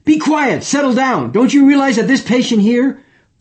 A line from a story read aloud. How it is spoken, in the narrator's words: He just yelled at everybody in the room